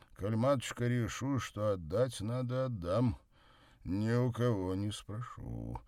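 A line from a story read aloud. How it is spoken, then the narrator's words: Dull muffled voice. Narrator (Russian): глухо сказал он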